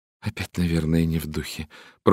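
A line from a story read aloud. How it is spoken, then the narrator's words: Muttered. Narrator (Russian): пробормотала миссис Хаббард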